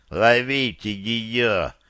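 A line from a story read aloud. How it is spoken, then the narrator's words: Breathless moan. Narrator (Russian): простонал он, задыхаясь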